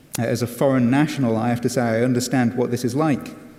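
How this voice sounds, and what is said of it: English accent with American influence. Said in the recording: “my English accent ... I've become more and more American”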